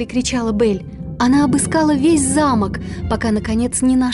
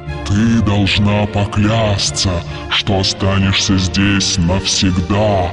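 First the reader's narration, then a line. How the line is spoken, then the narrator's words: Monstrous roar. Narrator (Russian): проревело чудовище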